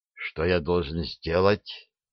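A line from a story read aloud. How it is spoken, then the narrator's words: Quiet, steady, determined. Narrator (Russian): Вопрос прозвучал тихо, но голос очкарика не дрожал, и в нем слышалась твердая решимость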